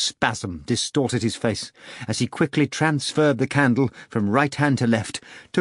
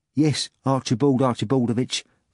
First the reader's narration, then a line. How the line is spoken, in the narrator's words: the doorman answered timidly